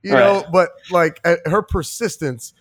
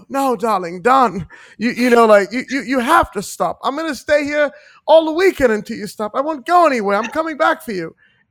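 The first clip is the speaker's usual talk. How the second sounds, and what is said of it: Put-on American Atlantic accent. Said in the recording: “had that American Atlantic accent”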